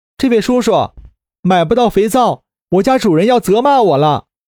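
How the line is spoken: Shouted. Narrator (Chinese): 环儿也跟着喊了一嗓子

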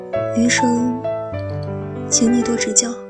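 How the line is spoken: Smiling, tender. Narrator (Chinese): 笑着对你说

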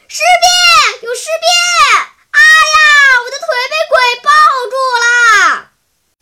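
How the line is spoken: Frightened loud shout. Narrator (Chinese): 只见眼前一只巨大的甲虫几乎快碰到他的鼻子尖了，吓得他大声叫道

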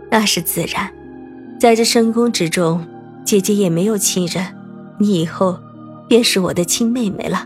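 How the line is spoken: Soft, smiling. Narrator (Chinese): 林秋叶回眸一笑，轻声道

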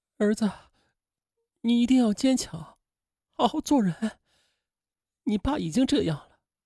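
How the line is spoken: Sobbing tearfully. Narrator (Chinese): 霍香群痛哭流涕

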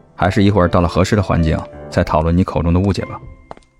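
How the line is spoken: Flat indifferent reply. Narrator (Chinese): 淡淡的回了一句

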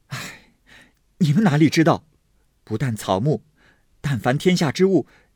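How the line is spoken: Sighing. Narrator (Chinese): 宝玉叹道

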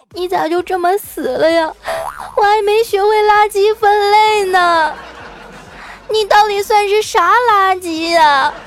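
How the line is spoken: Child sobbing, mumbling. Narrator (Chinese): 这小家伙伤心的哈，哭的鼻涕泡都出来了， 一边哭啊还一边嘀咕

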